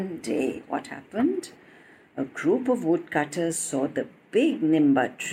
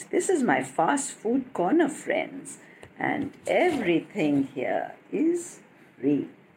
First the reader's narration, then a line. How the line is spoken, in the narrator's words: Avi chuckled